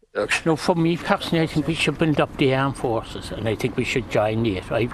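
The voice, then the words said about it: Cork Irish accent. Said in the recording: “Cork was your favourite accent ... here's a listen to some of your favourite accent”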